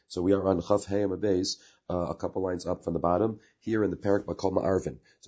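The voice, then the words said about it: Weak, strained voice. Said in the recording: “apologize for my voice is a little weak today”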